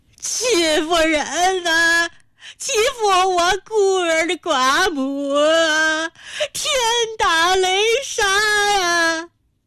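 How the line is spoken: Grief-stricken wailing. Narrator (Chinese): 陈家老太悲愤地跺着脚，麻子脸涨得像是要冒血，仰天嚎哭

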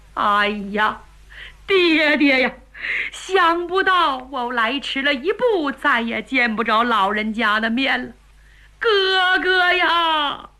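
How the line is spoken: Crying aloud. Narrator (Chinese): 半天岳雷这才哭出声来

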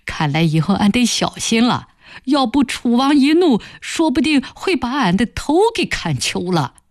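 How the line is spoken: Joking. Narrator (Chinese): 马老四这时走过来开玩笑说

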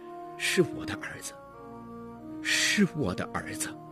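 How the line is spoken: Murmuring to himself. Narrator (Chinese): 喃喃自语说

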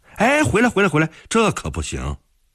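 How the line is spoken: Clamoring shout. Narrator (Chinese): 向贵就冲着他嚷嚷

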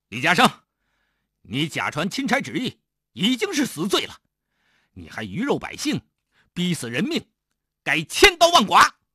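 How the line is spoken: Angry rebuke. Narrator (Chinese): 刘景……怒斥李嘉诚

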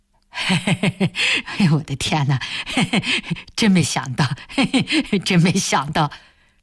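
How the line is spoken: Foolish giggling. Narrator (Chinese): 开田只是一个劲儿地傻笑着说

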